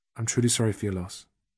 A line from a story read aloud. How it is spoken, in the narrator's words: Softly, Jack said